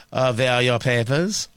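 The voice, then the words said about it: Mock German accent. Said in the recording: “I can't do enough of a German accent to be able to say ... Oh, I guess I can. Oh, look at me. I can be an authoritarian”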